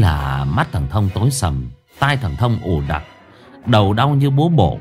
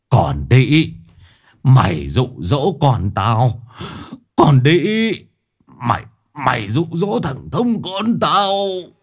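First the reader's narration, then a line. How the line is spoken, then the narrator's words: Trembling scream. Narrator (Vietnamese): tiếng của thầy Thông run rẩy gào lên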